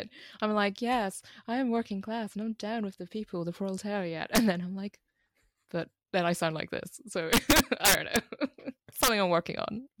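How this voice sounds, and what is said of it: Posh English accent. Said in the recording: “is that a very posh accent, huh? ... It is a posh accent. ... Posh from Oxford.”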